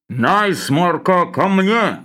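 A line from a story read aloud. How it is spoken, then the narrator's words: Dull low boom. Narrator (Russian): Глухо прогудел Лавр Федотович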